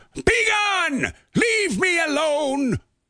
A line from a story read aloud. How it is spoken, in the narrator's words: She shrieked, hollered